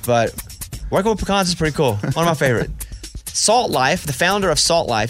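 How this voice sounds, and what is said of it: Thick regional accent. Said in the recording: “Your accent's too thick.”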